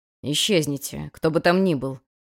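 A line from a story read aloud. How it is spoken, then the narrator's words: Menacing growl. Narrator (Russian): Угрожающе рыкнул первый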